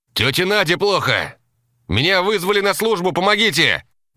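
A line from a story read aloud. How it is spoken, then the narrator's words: Shout. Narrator (Russian): крикнул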